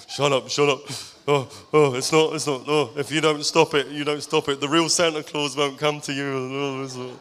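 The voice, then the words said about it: Silly deep put-on voice. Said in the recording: “In this stupid accent, this stupid deep accent”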